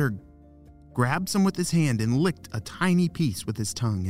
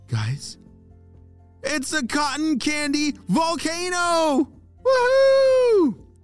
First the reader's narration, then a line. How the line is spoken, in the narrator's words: Everyone erupted into screaming with excitement